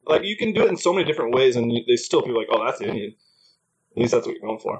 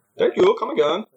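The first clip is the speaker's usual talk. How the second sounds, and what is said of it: Put-on Indian accent. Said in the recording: “Everyone's good at an Indian accent, too.”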